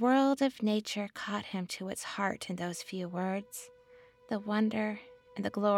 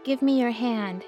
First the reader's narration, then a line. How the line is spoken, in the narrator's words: he cried